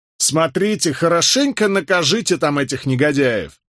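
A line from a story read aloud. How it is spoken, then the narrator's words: Shout from behind. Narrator (Russian): крикнул кто-то нам вслед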